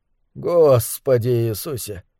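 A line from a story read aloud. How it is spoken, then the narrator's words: Muttered through clenched teeth. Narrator (Russian): пробормотал коми-вояжёр сквозь стиснутые зубы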